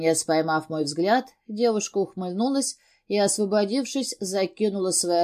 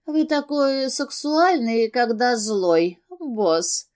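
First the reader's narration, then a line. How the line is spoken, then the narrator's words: Seductive purr. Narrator (Russian): промурлыкала она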